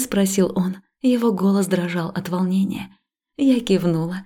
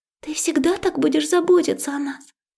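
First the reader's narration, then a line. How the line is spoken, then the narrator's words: Quiet question. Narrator (Russian): тихо спросила Алена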